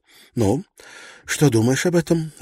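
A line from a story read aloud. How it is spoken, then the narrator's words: Breathed out. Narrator (Russian): выдохнула Кристина Блэкла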